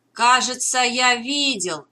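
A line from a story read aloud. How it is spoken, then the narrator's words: Shouted. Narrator (Russian): крикнул Морелли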